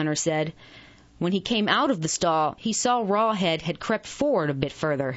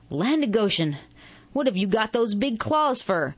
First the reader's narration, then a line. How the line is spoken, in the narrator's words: he snapped